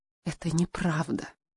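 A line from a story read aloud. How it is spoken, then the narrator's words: Whisper. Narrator (Russian): прошептала Хелена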